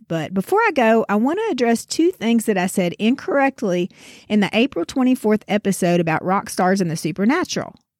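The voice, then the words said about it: Sick, congested nasal voice. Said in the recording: “You can probably tell by the sound of my voice that after escaping for 2 years, COVID finally caught up with me ... give my voice a rest and not torture your ears with my nasal tones”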